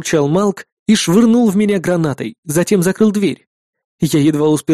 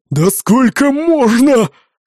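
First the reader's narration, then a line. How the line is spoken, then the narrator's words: Horrified yell. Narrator (Russian): С ужасом завопил Малк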